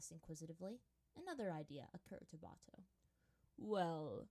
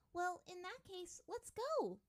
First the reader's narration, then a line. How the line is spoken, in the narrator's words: the girl said excitedly